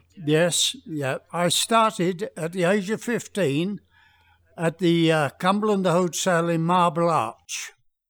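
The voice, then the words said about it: Speaks with a pleasing accent. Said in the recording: “he's still got that gorgeous accent.”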